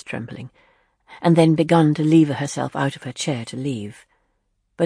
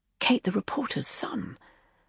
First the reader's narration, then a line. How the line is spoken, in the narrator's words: Leslie whispered to him